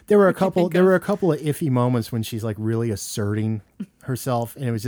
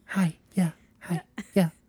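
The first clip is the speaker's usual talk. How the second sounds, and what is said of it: Imitates another person's voice. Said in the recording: “my Renee Zellweger impression”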